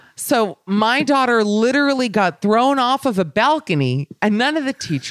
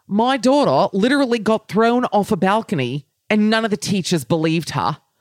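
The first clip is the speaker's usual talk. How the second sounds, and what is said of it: Put-on Australian accent. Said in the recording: “should I do it in the accent? I think I have to, but I'm worried it's going to lose the punch.”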